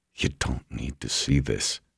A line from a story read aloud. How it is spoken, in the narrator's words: he said, miserably